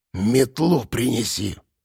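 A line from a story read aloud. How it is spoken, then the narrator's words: Hissed. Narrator (Russian): прошипела баба Марфа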